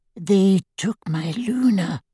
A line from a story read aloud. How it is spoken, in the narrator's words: he whispered